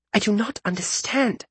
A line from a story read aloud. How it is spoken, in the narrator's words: Nanasi whispered to Isaria